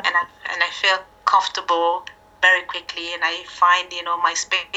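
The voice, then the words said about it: French-accented English. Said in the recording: “you've got a French accent as opposed to an Ivorian French accent”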